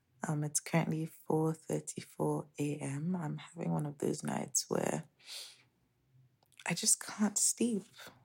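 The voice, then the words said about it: Whispering. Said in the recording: “if it sounds like I'm whispering, it's because I am.”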